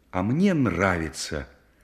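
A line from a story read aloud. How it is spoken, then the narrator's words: Young woman's exclamation. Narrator (Russian): воскликнула девушка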